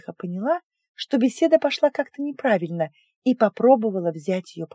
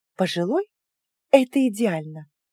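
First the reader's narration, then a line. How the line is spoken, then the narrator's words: Relieved sigh. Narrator (Russian): с облегчением вздохнула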